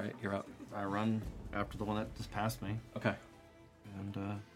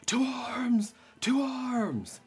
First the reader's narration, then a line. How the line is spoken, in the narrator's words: he's screaming